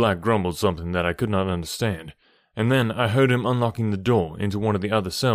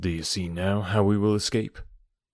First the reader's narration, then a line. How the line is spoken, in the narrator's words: I asked him in a whisper